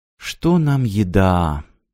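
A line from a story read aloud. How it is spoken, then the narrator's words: Quiet. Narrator (Russian): тихо сказал Трейси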